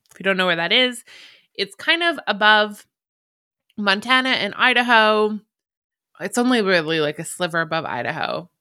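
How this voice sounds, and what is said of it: Canadian accent. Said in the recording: “I'm Canadian. If you hear me say A, we do actually say A. ... Apparently, I have a very cute Canadian accent.”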